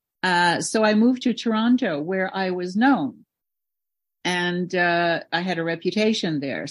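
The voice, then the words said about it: Slight French accent in English. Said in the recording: “I'm French. ... You probably hear a little accent of mine every now and then. It'll come through.”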